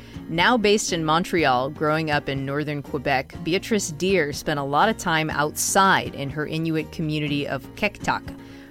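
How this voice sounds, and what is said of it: Boston accent. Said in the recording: “my Boston accent really hinders me in saying it the way that I want to”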